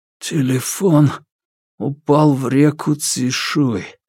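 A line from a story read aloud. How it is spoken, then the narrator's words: Strained whisper. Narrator (Russian): прошептал Чэньчжо, с трудом выдавливая звуки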